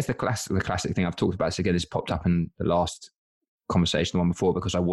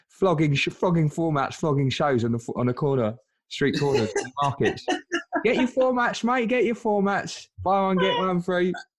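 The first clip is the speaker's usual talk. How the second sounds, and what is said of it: Put-on Cockney accent. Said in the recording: “I've got to stop using that accent. ... I did the same character. ... Cockney developers”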